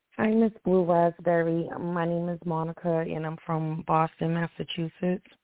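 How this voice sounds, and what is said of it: Slightly hoarse voice. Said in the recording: “Excuse my voice okay. is a bit hoarse.”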